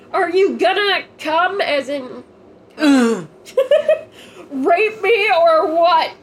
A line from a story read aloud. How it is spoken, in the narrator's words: I yelled